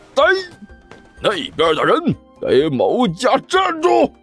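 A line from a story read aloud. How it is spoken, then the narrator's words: Loud roar. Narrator (Chinese): 关小雨深吸了一口气，对着走过来的那个人大吼了一声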